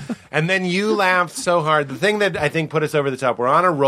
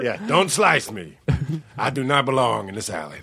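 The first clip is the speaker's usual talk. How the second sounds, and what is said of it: Imitates another person's voice. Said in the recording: “You did tomato Al Pacino. You were Al Pacino as a tomato.”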